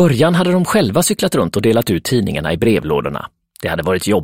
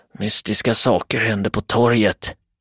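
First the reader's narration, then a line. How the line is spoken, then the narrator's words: Hissing. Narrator (Swedish): väser den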